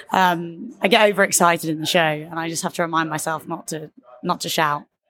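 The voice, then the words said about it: Slightly husky voice. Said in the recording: “I think my voice sounds a bit husky today, but my voice goes quite easily.”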